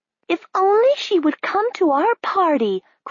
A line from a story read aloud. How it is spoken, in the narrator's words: cried another one